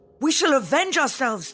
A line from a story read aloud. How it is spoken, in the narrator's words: they cried